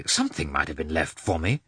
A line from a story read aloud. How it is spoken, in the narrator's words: Lievin was so annoyed that he said crossly